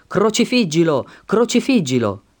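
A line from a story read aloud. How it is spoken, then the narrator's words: Crowd shouting. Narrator (Italian): essi gridavano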